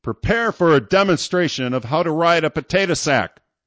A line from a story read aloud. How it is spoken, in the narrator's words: the captain yelled